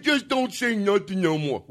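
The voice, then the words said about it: Put-on dumb-sounding voice. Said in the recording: “you're putting a dumb voice on it”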